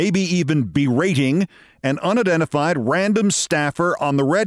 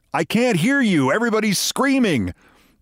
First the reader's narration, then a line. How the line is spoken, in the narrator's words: Tom Hanks clenched it while he was yelling